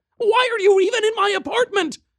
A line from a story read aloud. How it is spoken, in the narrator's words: screamed